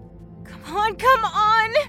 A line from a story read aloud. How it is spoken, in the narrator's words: she whimpered